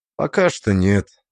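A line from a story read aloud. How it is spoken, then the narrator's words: Calm, softer than usual. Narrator (Russian): ответил я спокойно, стараясь говорить мягче обычного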